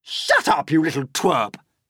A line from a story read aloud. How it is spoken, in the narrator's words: Aunt Spiker snapped